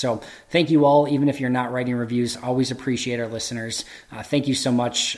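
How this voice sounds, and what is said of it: Strained voice, losing his voice. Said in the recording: “I'm losing my voice.”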